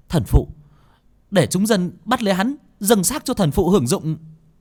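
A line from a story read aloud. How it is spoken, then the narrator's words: Woman shouting. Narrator (Vietnamese): người phụ nữ kia quát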